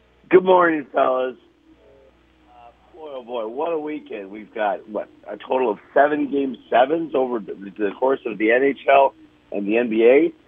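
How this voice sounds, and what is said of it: Slightly hoarse voice. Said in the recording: “You can hear my voice is a little bit hoarse.”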